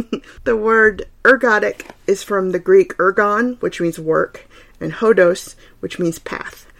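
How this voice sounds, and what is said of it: Southern accent, slightly slurred words. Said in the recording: “I tend to slur words because of fatigue and because of my southern accent”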